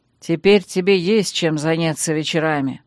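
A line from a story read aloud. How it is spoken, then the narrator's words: Menacing promise. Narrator (Russian): грозно пообещал Танрад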